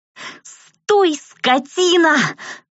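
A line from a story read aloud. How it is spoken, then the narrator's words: Breathless howl. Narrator (Russian): Уже задыхаясь от быстрого бега, взвыла я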